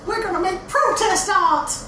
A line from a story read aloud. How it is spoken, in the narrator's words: the woman screams